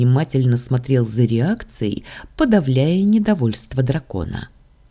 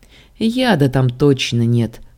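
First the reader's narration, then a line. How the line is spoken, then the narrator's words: Laughing. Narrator (Russian): рассмеялся я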